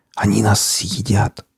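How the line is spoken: Frightened whisper. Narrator (Russian): зашептал пленник

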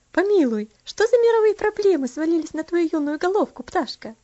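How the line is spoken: Asked laughing. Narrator (Russian): спросила, смеясь, Аделейд

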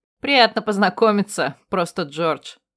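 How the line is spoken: Snort. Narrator (Russian): фыркнула я в ответ

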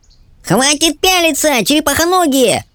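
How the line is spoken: Yelled. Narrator (Russian): завопил Пискун

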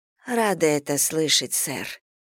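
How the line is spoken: Quiet reply. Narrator (Russian): тихо отозвалась она

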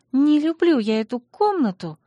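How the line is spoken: Sighing. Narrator (Russian): вздохнула принцесса

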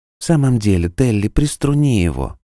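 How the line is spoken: Sleepy reply from corner. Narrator (Russian): Сонно отозвалась Нора из своего угла

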